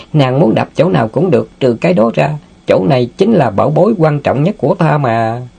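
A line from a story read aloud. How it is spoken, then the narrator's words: Laughing. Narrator (Vietnamese): Tiểu Ngưu bật cười nói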